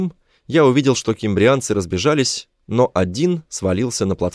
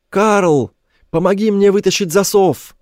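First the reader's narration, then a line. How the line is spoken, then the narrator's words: Shouted. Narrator (Russian): крикнул я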